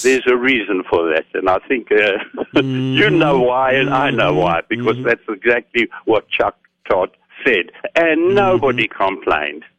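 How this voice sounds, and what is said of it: Calm, soothing accented voice. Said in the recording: “I can listen to that accent. It's very soothing. ... Very calm, very serene.”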